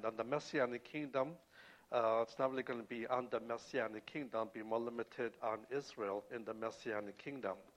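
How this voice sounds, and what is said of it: Accented, congested voice. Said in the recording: “I woke up this morning with a cold. ... It's bad enough you have to deal with my accent, but when I have a cold with my accent, it becomes a little bit more difficult.”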